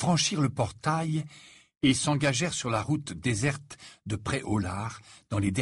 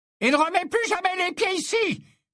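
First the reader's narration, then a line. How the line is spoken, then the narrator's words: Angry yelling. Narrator (French): hurla Madame Rosmerta en expulsant avec vigueur un sorcier à l'aspect crasseux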